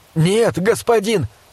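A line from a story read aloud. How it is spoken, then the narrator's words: Desperate shout. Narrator (Russian): закричал в отчаянии Зикара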